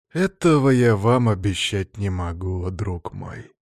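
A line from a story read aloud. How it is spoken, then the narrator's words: Faint sigh. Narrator (Russian): Всеволод и едва заметно вздохнул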